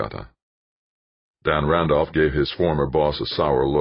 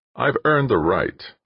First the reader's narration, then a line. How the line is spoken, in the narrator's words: he said